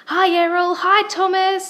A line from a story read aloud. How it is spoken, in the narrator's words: Ava called out as she sped towards them